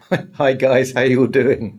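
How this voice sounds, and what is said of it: American-sounding accent. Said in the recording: “that sounded very American”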